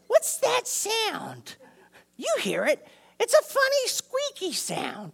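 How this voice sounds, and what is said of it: Imitation of Aunt Bethany's voice. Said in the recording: “I don't do her voice that great”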